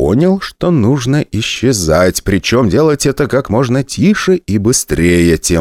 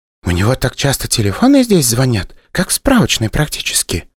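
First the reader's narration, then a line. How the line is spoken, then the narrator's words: Whispered. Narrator (Russian): шепнула мне Вера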